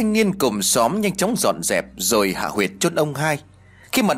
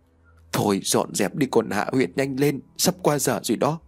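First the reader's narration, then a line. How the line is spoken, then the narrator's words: Frightened mutter. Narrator (Vietnamese): Bà Hai xanh mặt, bà lẩm bẩm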